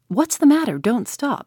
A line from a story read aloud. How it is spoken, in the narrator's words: he cried